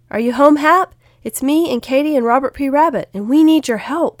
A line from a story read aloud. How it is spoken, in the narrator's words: Will called out